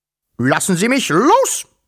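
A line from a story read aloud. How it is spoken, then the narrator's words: Roared. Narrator (German): brüllte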